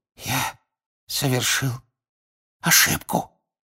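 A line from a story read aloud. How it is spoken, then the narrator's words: Whisper. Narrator (Russian): прошептал мистер Крауч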